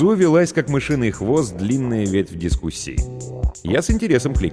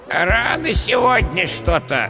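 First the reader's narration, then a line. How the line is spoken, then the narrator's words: Displeased creaky voice. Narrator (Russian): недовольно проскрипел скелет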